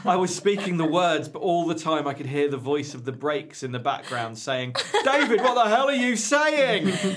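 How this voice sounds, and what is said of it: Imitates another person's voice. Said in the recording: “my David Icke impersonation”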